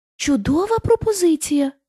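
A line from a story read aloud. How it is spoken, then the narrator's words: Lion exclaiming. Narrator (Ukrainian): вигукнув лев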